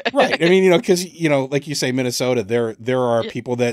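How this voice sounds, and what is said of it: Usual voice. Nothing is said of it.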